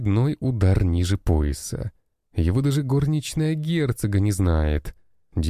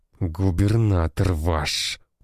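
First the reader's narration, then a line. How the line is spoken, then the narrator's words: Hiss. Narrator (Russian): прошипел Лыков Леонид Максимович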